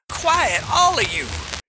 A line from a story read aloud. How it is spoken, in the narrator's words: shouted Kutch